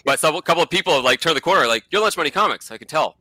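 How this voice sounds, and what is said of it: Mumbly Boston accent. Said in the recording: “like sort of mumble. I have a Boston accent. I'm trying to hide all the time.”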